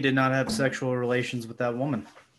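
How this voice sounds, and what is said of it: Lowered-voice Bill Clinton impression. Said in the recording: “do your impression. ... you just gotta lower that voice.”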